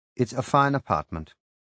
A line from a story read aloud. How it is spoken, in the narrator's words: I said dryly